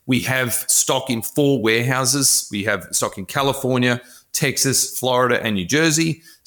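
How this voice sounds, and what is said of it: Australian accent. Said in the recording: “obviously I'm Australian, as you can tell by my glorious accent.”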